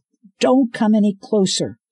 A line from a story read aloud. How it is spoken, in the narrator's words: Scarlet yelled